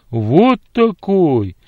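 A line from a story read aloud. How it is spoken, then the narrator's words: Deep drawn-out voice. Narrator (Russian): почти басом протянул он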